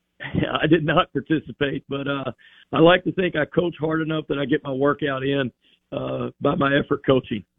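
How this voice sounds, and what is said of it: Hoarse, strained voice. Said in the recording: “Sorry for the hoarse voice. We had some mat drills this morning, so still recovering my voice a little bit here.”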